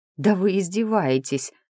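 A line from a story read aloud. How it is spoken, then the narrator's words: Moan. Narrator (Russian): Простонала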